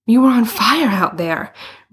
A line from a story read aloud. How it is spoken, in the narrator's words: Bruno panted